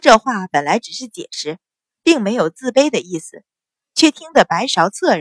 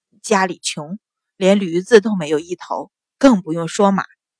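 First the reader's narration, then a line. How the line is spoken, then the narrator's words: Flustered, low voice. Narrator (Chinese): 宋文杰被他笑得更加手足无措，低声道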